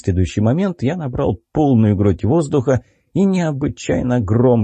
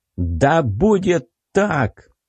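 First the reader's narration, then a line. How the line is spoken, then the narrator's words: Shout. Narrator (Russian): крикнул я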